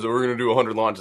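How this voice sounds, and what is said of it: Elon Musk impression. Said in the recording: “That was a good Elon impression.”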